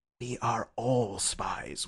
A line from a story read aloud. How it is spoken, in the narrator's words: whispered Syme